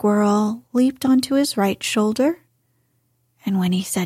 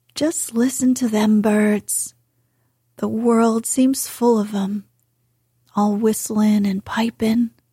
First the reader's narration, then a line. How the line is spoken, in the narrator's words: he said